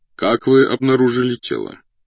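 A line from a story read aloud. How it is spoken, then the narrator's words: Plain question. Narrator (Russian): спросил обер-полицмейстер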